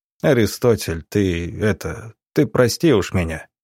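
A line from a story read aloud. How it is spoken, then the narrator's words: Very quiet, apologetic. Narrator (Russian): совсем тихо произнес Субботин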